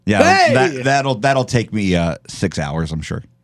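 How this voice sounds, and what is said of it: Sarcastic tone. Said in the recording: “I was being sarcastic.”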